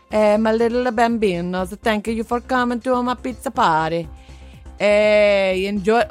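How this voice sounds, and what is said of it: Stereotypical Italian accent. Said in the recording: “you do a stereotypical Italian voice to her, do you? ... doing accents back to people”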